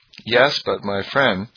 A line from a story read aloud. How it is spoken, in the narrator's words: said